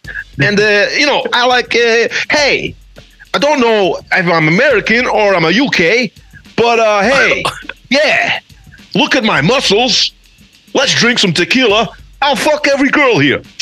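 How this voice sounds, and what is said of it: Andrew Tate impression. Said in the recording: “best Andrew Tate impression”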